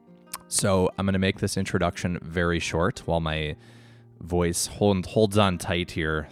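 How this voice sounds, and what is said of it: Hoarse recovering voice. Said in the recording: “I am coming off having quite the cold ... totally lost my voice this week. My voice is starting to come back slowly but surely.”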